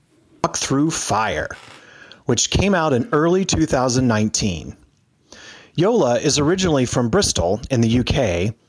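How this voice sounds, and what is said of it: Smooth radio-announcer voice. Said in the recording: “I think you have a great radio voice”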